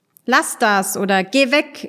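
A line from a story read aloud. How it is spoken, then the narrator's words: Angry shout. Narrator (German): rief er wütend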